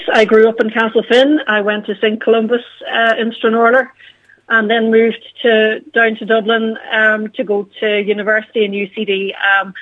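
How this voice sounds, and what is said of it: Donegal Irish accent. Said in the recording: “originally from Castlefin ... the accent has not left me. It's still with me. Thank God, it's the best accent. ... I grew up listening to Highland Radio ... connected back to Donegal”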